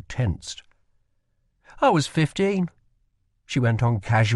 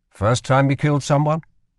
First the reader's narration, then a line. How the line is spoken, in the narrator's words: asked Kel